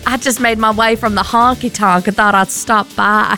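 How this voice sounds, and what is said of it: Put-on Southern Belle accent. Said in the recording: “can you do a Southern Belle accent ... Can I do a Southern Belle accent?”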